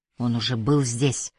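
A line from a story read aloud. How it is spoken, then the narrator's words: Mumbled. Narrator (Russian): пробормотал отец Питера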